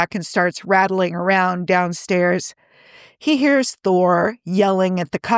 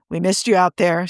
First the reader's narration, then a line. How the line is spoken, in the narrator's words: Steve grumbles